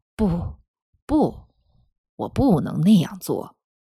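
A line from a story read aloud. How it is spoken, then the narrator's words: Regretful, soft. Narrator (Chinese): 帕特里奇先生遗憾地轻声说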